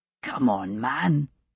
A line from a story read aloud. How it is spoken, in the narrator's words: said gruffly